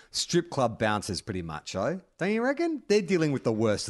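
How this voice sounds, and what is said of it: Usual voice. Nothing is said of it.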